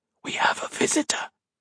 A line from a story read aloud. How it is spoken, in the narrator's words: Modo hissed